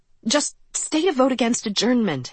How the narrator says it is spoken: Hanover pleaded

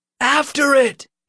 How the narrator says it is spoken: Nick cried

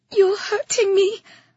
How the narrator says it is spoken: I whimpered

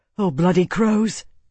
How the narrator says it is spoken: Tarvi breathed

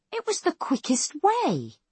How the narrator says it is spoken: Fournier exclaims indignantly

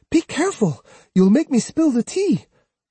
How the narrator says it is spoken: she exclaimed

